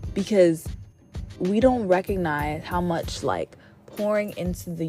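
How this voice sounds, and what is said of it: Usual voice. Nothing is said of it.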